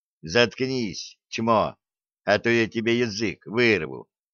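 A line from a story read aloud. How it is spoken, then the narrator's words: Mock-gentle. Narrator (Russian): Джо, простой парень, ласково сказал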